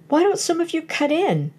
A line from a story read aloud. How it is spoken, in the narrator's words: cried Otis resentfully